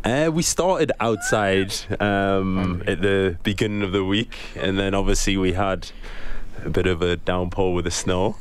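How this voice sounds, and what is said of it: Newcastle English accent. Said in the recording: “You're from Newcastle ... Which is not in Canada, as people can tell by the accent”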